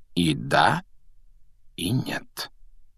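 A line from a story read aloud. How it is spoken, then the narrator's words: Quiet remark. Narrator (Russian): негромко заметил Дамблдор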